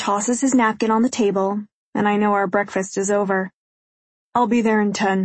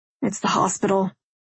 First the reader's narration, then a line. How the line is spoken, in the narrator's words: he says grimly